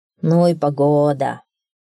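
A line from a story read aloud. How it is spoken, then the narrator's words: Grumbled. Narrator (Russian): пробурчал он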